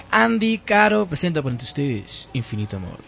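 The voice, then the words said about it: Radio announcer voice. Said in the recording (Spanish): “Con voz de locutor y todo.”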